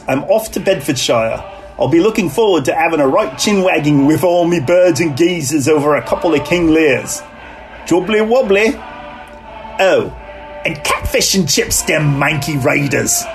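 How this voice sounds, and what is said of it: Put-on British accent with slang. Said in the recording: “his British accent is better than mine ... All of the slang terms seem to fit”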